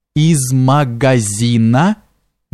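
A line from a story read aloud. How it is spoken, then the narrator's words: Slow female speech. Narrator (Russian): медленно сказала Карида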